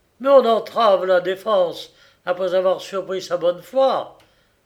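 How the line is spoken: Exclamation. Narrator (French): s'écria le Démosthène

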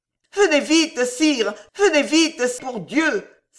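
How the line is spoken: Urgent cry. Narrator (French): s'écria en s'élançant

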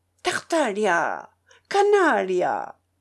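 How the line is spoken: Old man shouting. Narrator (French): lui cria le vieillard

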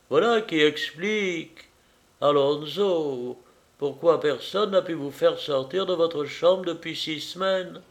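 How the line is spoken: Exclaiming. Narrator (French): s'écria Madame Fitzclarence

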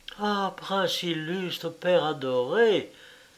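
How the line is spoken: Exclaiming. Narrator (French): s'écria-t-elle

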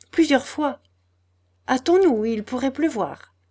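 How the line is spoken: Curt reply. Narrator (French): répondit-elle d'une voix brève

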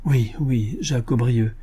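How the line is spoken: Young man stammering. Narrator (French): balbutia le jeune homme

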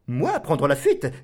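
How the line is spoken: Exclaiming. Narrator (French): s'écria Vamba

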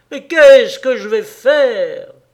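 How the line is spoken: Distraught, louder cry. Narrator (French): Une telle détresse le souleva qu'il cria plus haut égaré

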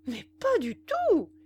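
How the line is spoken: Exclaiming. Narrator (French): s'écria-t-il

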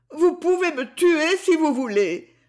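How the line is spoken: Moaned. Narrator (French): gémit-elle

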